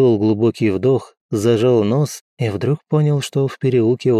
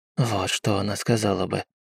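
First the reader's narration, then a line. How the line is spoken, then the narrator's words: Whisper. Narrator (Russian): прошептал Обби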